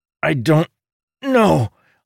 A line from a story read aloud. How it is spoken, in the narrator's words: Amandal replied through clenched teeth